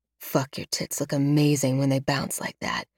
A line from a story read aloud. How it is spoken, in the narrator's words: Alex snarls